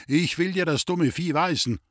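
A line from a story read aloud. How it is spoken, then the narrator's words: Fat man shouting. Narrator (German): rief der dicke Mann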